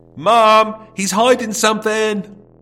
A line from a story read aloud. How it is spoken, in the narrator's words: From the front room, Tony called out